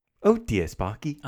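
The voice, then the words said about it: Put-on British accent. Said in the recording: “do a British accent”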